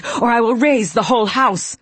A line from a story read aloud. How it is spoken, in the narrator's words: I screamed